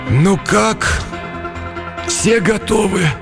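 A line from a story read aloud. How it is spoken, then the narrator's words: Barely audible question. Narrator (Russian): еле слышно спросил передатчик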